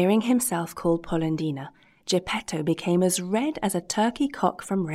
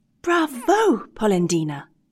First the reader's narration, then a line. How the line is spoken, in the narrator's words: exclaimed the same little voice